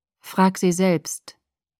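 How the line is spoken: Flat, toneless. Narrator (German): sagte Edward tonlos

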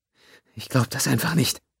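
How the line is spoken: Muttered. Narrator (German): murmelte sie

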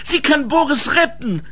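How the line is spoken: Calling out. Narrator (German): rief Ensel

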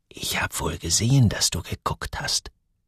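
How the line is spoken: Whispered. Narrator (German): Sarah flüsterte

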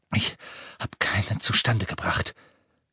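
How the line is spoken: Panting. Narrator (German): keuchte er

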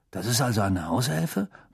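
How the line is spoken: Muttered. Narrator (German): murmelte Ron

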